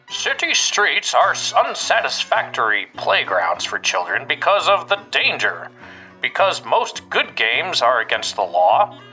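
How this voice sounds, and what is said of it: Imitates another person's voice. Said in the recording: “I'm going to do my Roosevelt impression, right? Get ready.”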